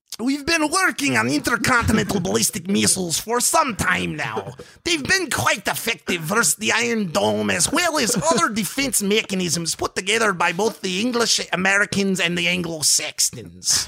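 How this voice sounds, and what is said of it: Put-on Russian accent. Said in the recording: “maybe in your Russian accent it'd be acceptable”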